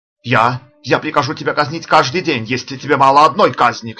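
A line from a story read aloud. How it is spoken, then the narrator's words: Shouted, recovering himself. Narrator (Russian): крикнул Розас, приходя в себя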